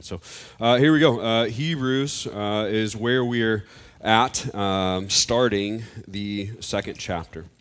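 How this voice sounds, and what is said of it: Deep, congested sick voice. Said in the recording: “fighting a little bit of a sinus infection. By a little bit, I mean a lot of one. So if I cough a little bit... I'm not trying to sound more manly and deep voice. It is just the good old sinus infection.”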